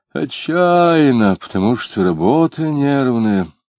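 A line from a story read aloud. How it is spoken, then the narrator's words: Explaining, then sighing. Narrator (Russian): объяснил он, вздохнул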